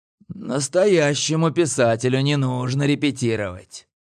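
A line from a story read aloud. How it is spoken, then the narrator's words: Hoarse young male voice. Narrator (Russian): хрипло проговорил парень задротского вида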